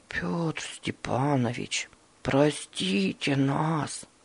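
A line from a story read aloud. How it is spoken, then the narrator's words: Barely audible. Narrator (Russian): Едва слышно проговорил Руслан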